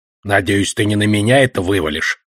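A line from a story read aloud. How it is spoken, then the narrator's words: Grumbling. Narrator (Russian): проворчал Одноглазый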